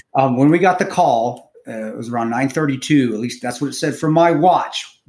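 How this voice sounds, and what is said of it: Calm, even speaking voice. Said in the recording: “I know I'm talking to it in a calm voice”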